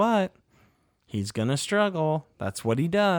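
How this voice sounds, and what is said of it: Usual voice. Nothing is said of it.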